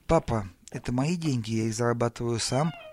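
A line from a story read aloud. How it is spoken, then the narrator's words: Uncertain. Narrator (Russian): сказал он неуверенно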